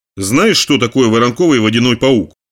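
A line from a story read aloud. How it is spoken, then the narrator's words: Plain. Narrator (Russian): спросил Брюкс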